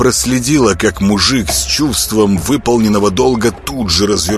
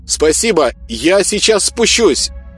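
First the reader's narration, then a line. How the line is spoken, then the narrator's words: Shout. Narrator (Russian): крикнула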